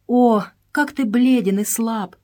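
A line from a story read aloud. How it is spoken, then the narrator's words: Exclaimed. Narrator (Russian): воскликнула она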